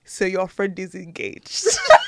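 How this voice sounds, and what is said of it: African dad accent. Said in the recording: “he put on the dad accent, African dad accent.”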